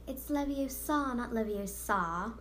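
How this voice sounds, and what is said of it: Imitated British girl character voice. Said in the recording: “I did a really good Hermione Granger impression ... It's almost like you're British, for real.”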